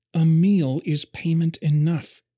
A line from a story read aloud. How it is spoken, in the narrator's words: said through clenched teeth